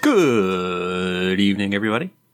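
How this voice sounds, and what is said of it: Radio announcer voice. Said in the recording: “That's your version of Good Morning Vietnam... putting on my radio announcer voice.”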